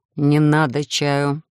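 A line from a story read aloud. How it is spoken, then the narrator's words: Quiet, through clenched teeth. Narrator (Russian): тихо процедил Эдриш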